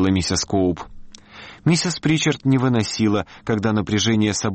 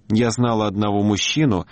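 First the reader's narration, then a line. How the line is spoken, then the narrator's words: Plain. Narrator (Russian): сказала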